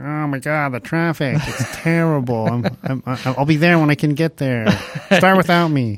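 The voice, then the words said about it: Imitates another person's voice. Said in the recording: “do an Adam impression”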